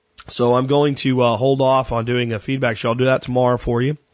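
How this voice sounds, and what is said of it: Slightly hoarse voice. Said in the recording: “I kind of picked up a cold ... if you can hear my voice is a little bit hoarse”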